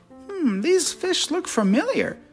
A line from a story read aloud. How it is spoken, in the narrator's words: Shellington said excitedly